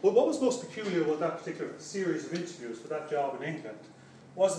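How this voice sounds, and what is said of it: Irish accent. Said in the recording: “my particular Irish accent”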